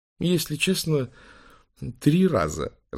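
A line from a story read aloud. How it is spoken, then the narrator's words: Laughing. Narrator (Russian): рассмеялся Бенья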